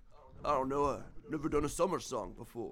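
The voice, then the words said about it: Imitates another person's voice. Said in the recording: “I don't do a very good impression of it. Mine sounds more like Sylvester Stallone.”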